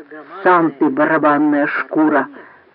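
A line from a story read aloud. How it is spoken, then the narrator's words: Hissed through teeth. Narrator (Russian): прошипел Данг сквозь зубы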